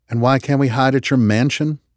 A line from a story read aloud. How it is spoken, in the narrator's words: Marcus asked him